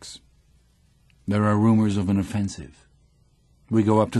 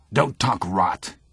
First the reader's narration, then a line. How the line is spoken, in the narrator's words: says Cat to him angrily